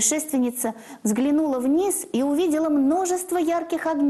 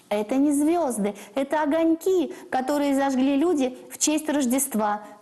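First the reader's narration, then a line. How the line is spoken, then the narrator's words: Laughing. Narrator (Russian): засмеялись облака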